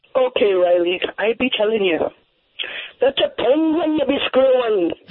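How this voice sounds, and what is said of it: Good Irish accent. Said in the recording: “you do a good Irish accent, too.”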